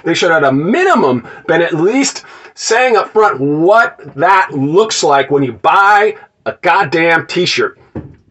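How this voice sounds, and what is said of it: Yelling, ranting delivery. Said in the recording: “I'm yelling at the phone... I'm making a, a rant video.”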